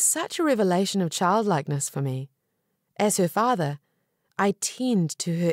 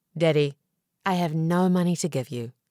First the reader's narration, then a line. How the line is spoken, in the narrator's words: calmly said